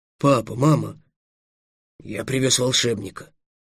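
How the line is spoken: Timid. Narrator (Russian): робко произнес Эллен

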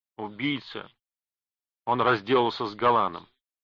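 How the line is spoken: Said slowly. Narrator (Russian): медленно произнес он

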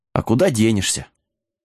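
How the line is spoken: Sighing wizard. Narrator (Russian): вздохнул колдун

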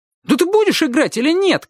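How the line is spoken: Shouted. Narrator (Russian): крикнул Славик

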